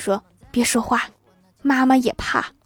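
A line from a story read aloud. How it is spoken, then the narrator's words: Quiet, frightened. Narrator (Chinese): 他妈妈小声的来了一句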